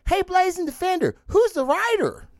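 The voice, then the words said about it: Imitates another person's voice. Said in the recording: “doing my Chris Wisdom voice.”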